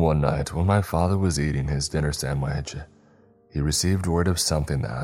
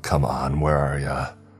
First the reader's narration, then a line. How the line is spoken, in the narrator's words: had muttered to himself